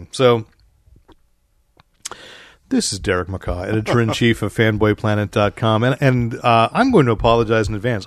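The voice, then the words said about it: Voice still not fully recovered. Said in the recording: “I have not quite gotten my voice back even from episode 500 ... It's going to probably be a few weeks before I'm back to full mellifluidousness.”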